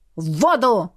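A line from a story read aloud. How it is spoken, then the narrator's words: Barked. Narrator (Russian): рявкнул он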